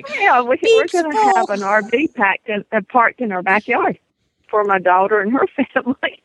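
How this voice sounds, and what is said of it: Slight Southern US accent. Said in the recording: “She got a little bit of an accent going there. We got all the Southern girls here today.”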